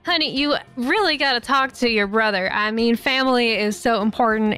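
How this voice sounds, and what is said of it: Put-on Southern American accent. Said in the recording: “I am using the Southern accent again.”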